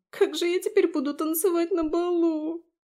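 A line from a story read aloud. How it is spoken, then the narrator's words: Sobbing. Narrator (Russian): Зашлась рыданием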